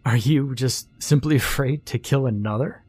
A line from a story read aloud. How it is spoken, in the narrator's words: He laughed